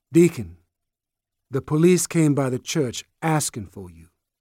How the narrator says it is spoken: Sister G said evenly to Sportcoat

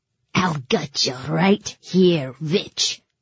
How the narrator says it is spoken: he snarled in a heavy Fjordan accent

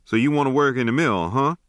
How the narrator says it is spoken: he asked

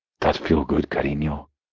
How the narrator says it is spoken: I huskily murmured

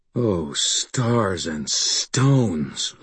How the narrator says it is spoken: breathed

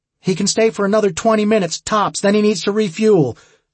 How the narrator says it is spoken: she shouted as she approached

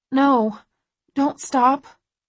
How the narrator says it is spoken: I whimper

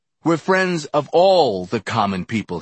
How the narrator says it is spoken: he shouted

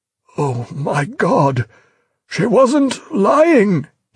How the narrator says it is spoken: he groaned, sick with pain and fear alike

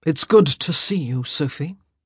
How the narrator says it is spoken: he said in a dangerously low voice

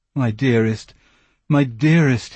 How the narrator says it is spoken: he moaned

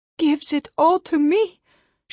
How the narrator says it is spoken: she sobbed

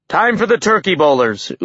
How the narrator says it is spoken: Utgard Loki shouted

